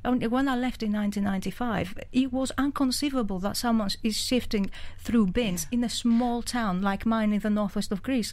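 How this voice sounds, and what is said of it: Greek accent. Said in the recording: “from Greece, you can tell by the accent”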